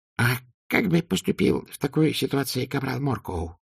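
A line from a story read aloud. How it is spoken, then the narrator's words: Whispered question. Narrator (Russian): шепотом спросил Дубинс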